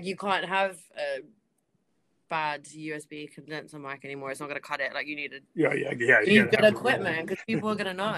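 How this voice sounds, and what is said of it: Husky voice. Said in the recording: “my voice is a bit husky”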